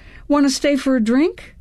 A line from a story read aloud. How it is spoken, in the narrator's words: I blurted out